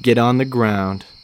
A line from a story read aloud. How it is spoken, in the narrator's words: the officer calmly said